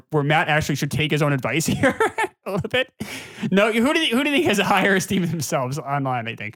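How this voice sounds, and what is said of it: Usual voice. Nothing is said of it.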